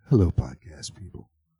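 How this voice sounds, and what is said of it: Sleazy FM radio announcer voice. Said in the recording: “my FM voice. NPR. ... That sounds a little sleazy.”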